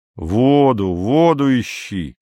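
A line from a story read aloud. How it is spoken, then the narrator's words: Plain. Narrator (Russian): сказал Андрей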